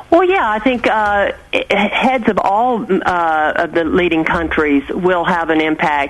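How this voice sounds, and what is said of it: British accent. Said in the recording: “I love your accent. ... Isn't it the most delicious accent? ... I love that accent.”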